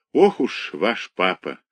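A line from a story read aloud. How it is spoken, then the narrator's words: Sighing. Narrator (Russian): вздохнул доктор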